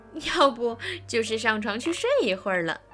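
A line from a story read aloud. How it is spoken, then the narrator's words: Laughing reply. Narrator (Chinese): 一个同学笑着回答说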